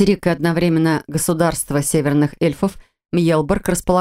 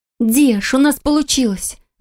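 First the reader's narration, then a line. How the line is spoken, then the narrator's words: Happy exclamation. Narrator (Russian): воскликнула, счастливо улыбаясь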